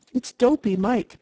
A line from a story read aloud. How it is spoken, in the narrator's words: said one